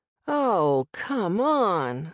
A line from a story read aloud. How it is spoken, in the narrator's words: I moaned